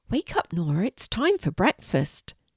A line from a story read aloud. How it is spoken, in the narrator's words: Nora's mum said gently